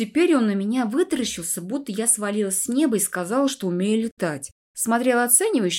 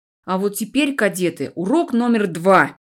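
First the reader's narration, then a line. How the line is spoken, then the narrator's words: Barked. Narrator (Russian): рявкнул Тиртон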